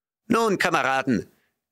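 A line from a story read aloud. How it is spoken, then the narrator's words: Calling out. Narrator (German): rief Snowball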